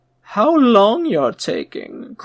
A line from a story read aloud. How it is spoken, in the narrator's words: cried Brunelda from the sofa